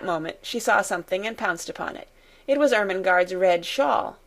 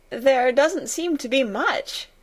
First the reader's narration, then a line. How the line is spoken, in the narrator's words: she answered, half laughing